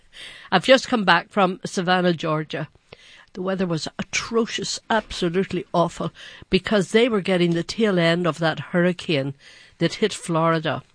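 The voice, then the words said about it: Congested voice from a cold. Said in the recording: “I have a little bit of a cold.”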